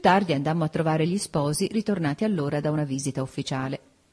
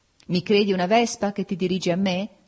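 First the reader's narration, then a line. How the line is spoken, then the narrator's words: Laughing. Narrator (Italian): gli dissi ridendo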